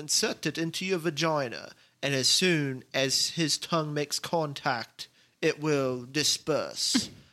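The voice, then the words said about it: Put-on British accent. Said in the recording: “that was a perfect accent ... I had a British dude say that”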